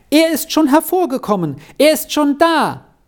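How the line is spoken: Calling out from doorway. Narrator (German): rief sie ihr schon unter der Tür entgegen

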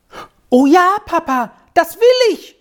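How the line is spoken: Shouted. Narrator (German): schrie Squirrel

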